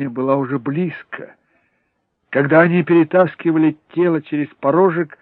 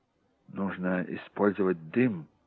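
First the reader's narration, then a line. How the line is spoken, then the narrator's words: Muttering. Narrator (Russian): пробормотал Джек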